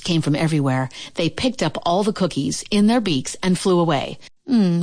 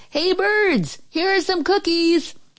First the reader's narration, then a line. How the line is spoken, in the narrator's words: He shouted in a loud voice